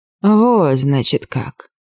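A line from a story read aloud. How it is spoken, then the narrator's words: Hissing. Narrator (Russian): прошипел он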